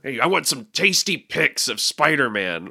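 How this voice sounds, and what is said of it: Intense J. Jonah Jameson character voice. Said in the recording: “character voice ... He's very intense. I feel like it's a bit like J.J. Jameson.”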